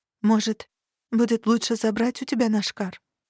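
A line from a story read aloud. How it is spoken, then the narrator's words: Quiet question. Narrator (Russian): Сиротанир Алиэль что-то тихо спросил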